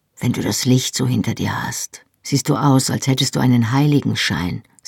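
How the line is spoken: Said softly. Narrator (German): sagte er leise

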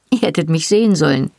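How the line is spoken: Giggling. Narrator (German): sagte sie kichernd

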